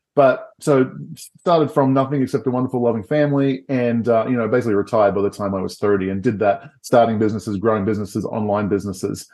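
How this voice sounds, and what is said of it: Australian accent. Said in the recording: “I grew up in Australia ... People are used to the funny accents”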